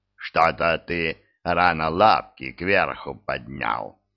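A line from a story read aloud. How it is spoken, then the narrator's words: Smirking snort. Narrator (Russian): хмыкнул Диффенбахи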